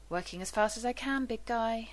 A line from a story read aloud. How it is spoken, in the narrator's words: John mutters